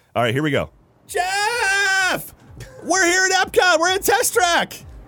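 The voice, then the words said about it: Yelling excitedly. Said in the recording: “Why are you yelling?”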